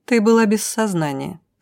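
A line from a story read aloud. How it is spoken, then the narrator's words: Dry remark. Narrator (Russian): сухо заметила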